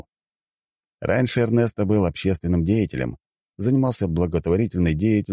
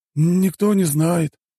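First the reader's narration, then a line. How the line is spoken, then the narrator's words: Sigh. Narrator (Russian): вздохнул Эрнеста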